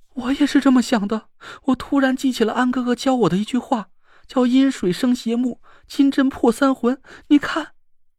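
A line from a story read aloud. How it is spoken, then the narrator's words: Frightened trembling voice. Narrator (Chinese): 田慧文惊恐的声音都在颤抖的说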